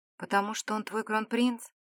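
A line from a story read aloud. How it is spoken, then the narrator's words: Quiet question. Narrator (Russian): тихо спросила девушка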